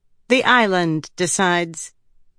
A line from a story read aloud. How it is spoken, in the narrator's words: Rissin said flatly, humoring him